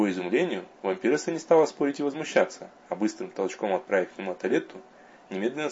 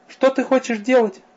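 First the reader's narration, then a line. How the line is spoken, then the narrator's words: Frightened woman. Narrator (Russian): испуганно произнесла бывшая королева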